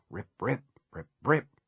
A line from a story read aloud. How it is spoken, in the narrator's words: under his breath